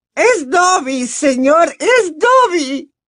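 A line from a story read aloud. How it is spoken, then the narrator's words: Shriek from below. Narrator (Spanish): chilló una voz desde algún lugar cercano a su ombligo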